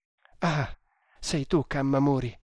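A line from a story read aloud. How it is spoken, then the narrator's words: Exclaimed. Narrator (Italian): esclamò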